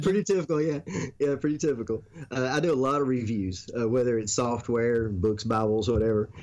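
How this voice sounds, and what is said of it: Mild Southern US accent. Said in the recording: “nice like southern accents ... you have that kind of the Hollywood version of a southern accent where it's just like, you know, that sounds nice”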